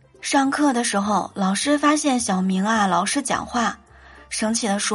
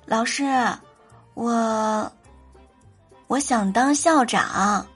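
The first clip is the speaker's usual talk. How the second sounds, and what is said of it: Soft, quiet voice. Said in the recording (Chinese): “小声的”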